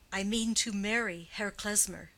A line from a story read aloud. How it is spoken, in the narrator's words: said Catherine firmly